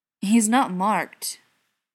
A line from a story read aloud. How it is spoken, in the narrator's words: he growled